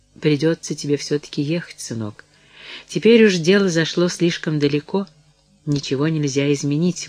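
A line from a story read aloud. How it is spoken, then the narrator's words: Sad objection. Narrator (Russian): возразила она, печально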